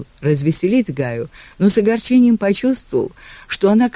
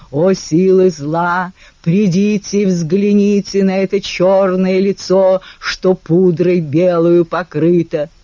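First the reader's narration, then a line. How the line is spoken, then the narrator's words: Hoarse theatrical bass growl. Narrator (Russian): Джейка зарычал хриплым басом шекспировского персонажа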